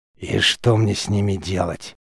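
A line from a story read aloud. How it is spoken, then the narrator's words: Resigned sigh, old man. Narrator (Russian): Обреченно, не ожидая внятного ответа, вздохнул старый вор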